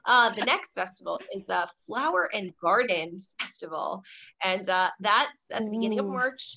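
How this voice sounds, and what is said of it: Strained, fading hoarse voice. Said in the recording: “I'm losing my voice now. Excuse me.”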